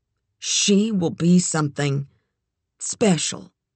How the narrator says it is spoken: In a bashful voice, she said aloud

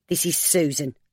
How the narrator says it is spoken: Mabel said harshly

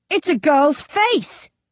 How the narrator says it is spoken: the guard shouts back at him

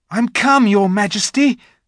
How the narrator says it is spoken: said Edmund, eagerly

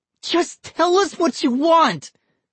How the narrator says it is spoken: Vinny cried

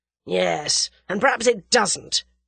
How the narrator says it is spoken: snarled Whittington

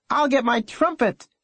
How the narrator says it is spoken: she yelled

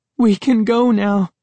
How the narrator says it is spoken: Sari cried happily

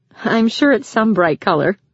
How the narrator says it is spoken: Rachel said with a laugh

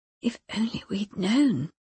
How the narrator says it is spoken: Lynette said to Eleanor quietly

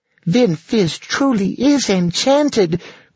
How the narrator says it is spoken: cried Lacey joyously

